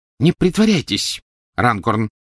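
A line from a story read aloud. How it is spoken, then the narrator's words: Sharp. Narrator (Russian): резко произнес мистер Уизли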